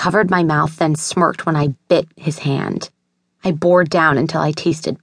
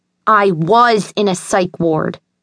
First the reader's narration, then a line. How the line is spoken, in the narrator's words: I snapped